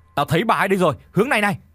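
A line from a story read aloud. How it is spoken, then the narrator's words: Shouting. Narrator (Vietnamese): Một tên trong số của chúng như đã nhìn thấy thì đã liền hét lên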